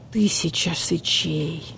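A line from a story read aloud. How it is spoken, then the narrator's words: Whispered. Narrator (Russian): прошептал барсукот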